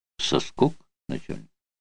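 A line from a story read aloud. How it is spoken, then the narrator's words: Quiet reply after long pause. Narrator (Russian): После долгой паузы негромко ответил Гриневский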